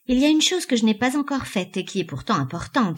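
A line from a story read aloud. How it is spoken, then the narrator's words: Earnest, heartfelt tone. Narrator (French): fit-elle, d'un ton pénétré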